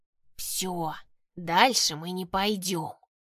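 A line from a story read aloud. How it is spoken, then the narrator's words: Fearful hiss. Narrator (Russian): прошипел их главный, с явным страхом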